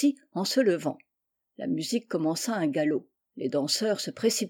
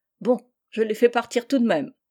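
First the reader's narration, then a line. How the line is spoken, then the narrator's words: Man exclaiming. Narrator (French): s'écria le cheminot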